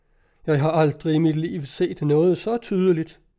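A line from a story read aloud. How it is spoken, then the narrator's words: Groaning. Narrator (Danish): sagde han og stønnede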